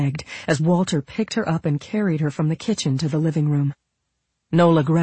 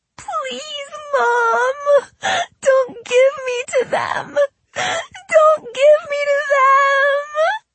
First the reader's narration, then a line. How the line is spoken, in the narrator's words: Nola kept screaming over and over